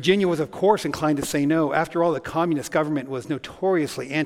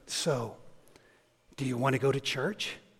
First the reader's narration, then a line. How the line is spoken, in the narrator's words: he leaned in and whispered to her